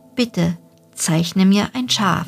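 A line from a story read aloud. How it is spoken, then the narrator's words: Very gentle, earnest. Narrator (German): wiederholte es ganz sanft, wie eine sehr ernsthafte Sache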